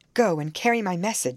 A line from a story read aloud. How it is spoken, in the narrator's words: she interrupted impatiently